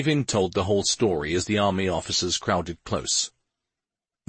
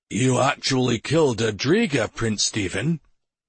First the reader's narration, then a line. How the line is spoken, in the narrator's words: the colonel asked in a husky tone